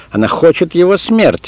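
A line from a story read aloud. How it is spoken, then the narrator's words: Tiny person yelling. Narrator (Russian): завопил лилипут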